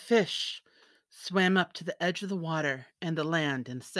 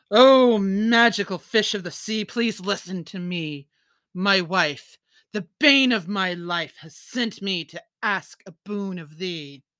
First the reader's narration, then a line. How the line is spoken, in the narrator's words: called out